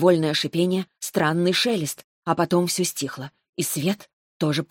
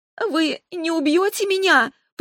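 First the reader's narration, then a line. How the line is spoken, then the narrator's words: Terrified squeak. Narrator (Russian): пропищала, чувствуя, как ужас снова охватывает меня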